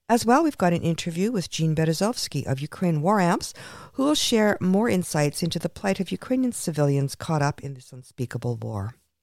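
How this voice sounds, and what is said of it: Congested voice with a cold. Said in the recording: “give my voice a break ... I've got a bit of a cold, as you can hear.”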